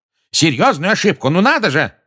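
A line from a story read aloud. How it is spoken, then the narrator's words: Yelling. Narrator (Russian): заорал Фадж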